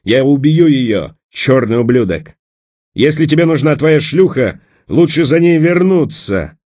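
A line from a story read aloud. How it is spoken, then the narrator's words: Hoarse, rough, in pain. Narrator (Russian): От боли в сломанном локте голос Брусилова стал хриплым и грубым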